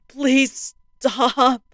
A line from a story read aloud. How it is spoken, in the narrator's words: the panic and desperation in her mother's voice